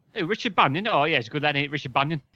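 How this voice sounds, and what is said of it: Imitated cockney accent. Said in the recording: “he were a bit cockney... Can you do an impression of him?... Yeah, a bit like that, yeah.”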